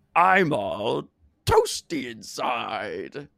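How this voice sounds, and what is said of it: Imitates the Grinch's voice. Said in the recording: “This is from How the Grinch Stole Christmas ... I forgot I wasn't the Grinch”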